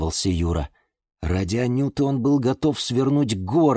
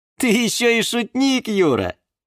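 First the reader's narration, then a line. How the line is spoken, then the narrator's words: Laughing. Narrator (Russian): рассмеялась Анюта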